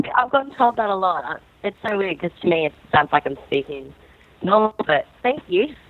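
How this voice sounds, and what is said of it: Australian accent. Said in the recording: “I like your Australian accent”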